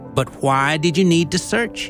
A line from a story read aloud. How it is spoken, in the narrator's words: he asked